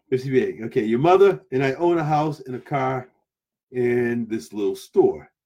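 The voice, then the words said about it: New England (Rhode Island) accent. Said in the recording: “Yes, I know the accent. It's from New England. ... Rhode Island. That's where I came from, Rhode Island.”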